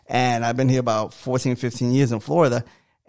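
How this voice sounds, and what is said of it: New York accent. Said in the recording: “a lot of you say I have an accent ... oh, yeah, you're from New York”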